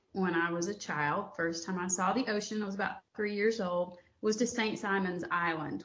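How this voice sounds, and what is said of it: Southern North Georgia accent. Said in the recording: “once you hear me start to talk, you'll know. ... You hear this accent. I grew up in North Georgia, in the Appalachian foothills of North Georgia”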